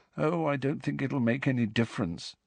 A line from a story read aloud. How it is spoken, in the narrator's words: said Neville, still more miserably